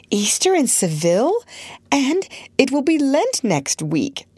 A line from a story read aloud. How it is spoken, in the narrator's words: she laughed